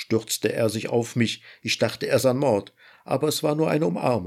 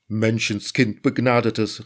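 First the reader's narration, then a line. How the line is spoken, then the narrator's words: Called out. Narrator (German): rief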